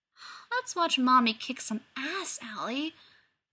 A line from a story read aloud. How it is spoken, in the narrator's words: cooed at the baby, smiling